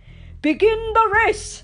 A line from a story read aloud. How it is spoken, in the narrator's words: he bellowed